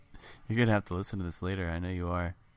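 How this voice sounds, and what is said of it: Sultry, sexy voice. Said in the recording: “my sultry, sexy voice”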